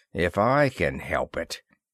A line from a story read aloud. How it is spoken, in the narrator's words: Ross muttered between his teeth